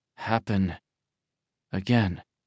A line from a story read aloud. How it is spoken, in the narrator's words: Tianming murmured